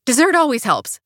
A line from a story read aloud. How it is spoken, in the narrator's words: I blurt